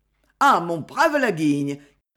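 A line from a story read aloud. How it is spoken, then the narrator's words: Exclaiming. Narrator (French): s'écria Capestan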